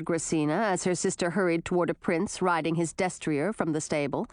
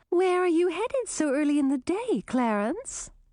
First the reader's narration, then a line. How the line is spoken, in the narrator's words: Chartreuse asked in her sweetest voice